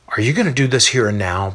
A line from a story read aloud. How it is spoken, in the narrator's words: Barnabas asks while sighing